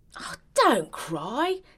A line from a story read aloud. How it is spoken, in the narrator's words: exclaimed the flamingo